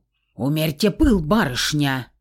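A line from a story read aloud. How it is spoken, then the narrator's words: Sharp bark. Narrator (Russian): резко гаркнул на нее Феникс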